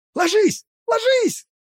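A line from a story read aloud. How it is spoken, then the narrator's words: Yell. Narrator (Russian): заорал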